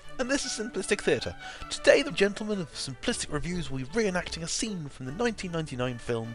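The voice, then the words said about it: British accent. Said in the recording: “my British accent makes the stupidity sound classy”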